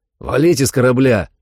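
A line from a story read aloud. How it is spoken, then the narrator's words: Shouting after them. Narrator (Russian): крикнул я им вдогонку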